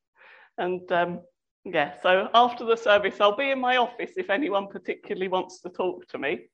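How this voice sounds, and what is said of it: Voice affected by a cold. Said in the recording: “It's keeping my throat going. ... I've got a bit of a cold.”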